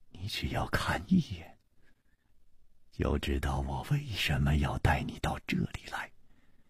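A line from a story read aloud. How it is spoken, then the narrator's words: Gentle, soft. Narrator (Chinese): 楚留香柔声说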